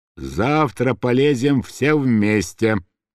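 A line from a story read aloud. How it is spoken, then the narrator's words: Drunken mumbling. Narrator (Russian): бормотал пьяный Мышлаевский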